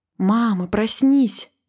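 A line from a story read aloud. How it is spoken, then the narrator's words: Frightened whisper. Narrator (Russian): испуганно зашептал мумитроль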